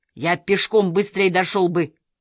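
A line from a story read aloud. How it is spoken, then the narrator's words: Angry shout. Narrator (Russian): в сердцах крикнул доктор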